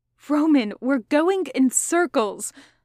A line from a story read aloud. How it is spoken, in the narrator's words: Logan said desperately